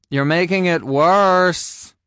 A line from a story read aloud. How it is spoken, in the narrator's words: I moaned